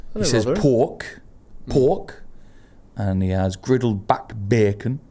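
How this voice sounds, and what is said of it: Attempted Rotherham accent, sounds Geordie. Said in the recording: “this guy's a very strong sort of Rotherham accent ... You're doing a Geordie accent.”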